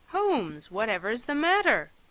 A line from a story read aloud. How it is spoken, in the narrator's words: he exclaimed